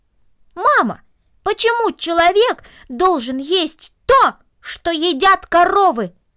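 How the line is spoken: Loud raised-voice repetition. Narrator (Russian): Повысив голос, он громко повторил

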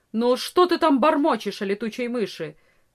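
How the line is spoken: Stern peasant woman. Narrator (Russian): строго спросила крестьянка

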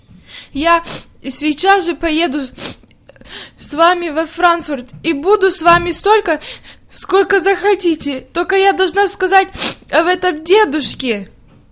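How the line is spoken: Tearful sobbing speech. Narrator (Russian): Слезы бежали по щекам, и, всхлипывая, она проговорила

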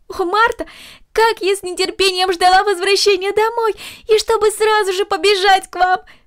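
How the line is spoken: Exclaiming. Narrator (Russian): воскликнула Корнели

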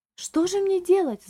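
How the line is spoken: Agitated lady exclaiming. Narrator (Russian): взволнованно воскликнула дама

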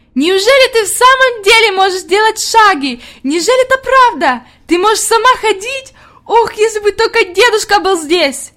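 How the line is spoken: Ecstatic shout. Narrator (Russian): Хади закричала в ответ с еще большим восторгом

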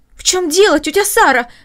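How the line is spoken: Exclaimed. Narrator (Russian): воскликнула Маша

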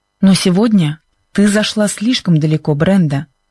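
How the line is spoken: Harsh. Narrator (Russian): сказал Чак жестким голосом

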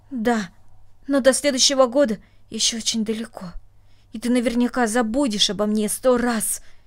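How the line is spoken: Angry, reproachful. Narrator (Russian): сердито сказала она, как будто упрекая своего друга

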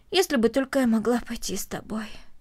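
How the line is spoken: Heavy sigh. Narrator (Russian): тяжело вздохнула Корнелли

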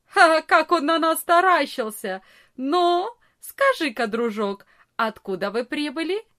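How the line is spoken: Big boy, laughing loudly. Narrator (Russian): самый большой из ребят громко не засмеялся и не сказал

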